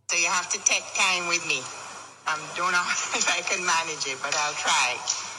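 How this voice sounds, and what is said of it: Jamaican accent. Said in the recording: “the twang ... how my mother's cousin sounds in Jamaica. All right, this accent, I just love this. Because it's so cool.”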